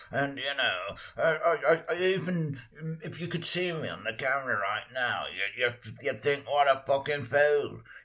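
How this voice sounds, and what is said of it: Invented character voice. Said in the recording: “sometimes I just start talking like this. This is just one I've invented right now ... emphasizes some specific words”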